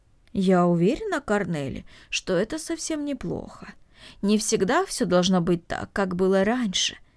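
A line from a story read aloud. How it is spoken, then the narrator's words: Thoughtful. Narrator (Russian): задумчиво произнесла Марта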